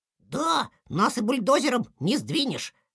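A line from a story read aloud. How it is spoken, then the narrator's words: Proud squeak, small child. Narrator (Russian): с гордостью пропищал малыш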